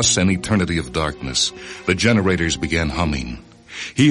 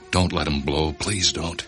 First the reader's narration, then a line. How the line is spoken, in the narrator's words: murmured